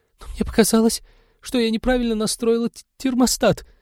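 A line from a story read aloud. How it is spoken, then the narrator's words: Guilty babbling. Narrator (Russian): виновато залепетала ученая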